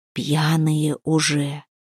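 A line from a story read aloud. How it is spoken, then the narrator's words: Whisper. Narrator (Russian): шепнул волк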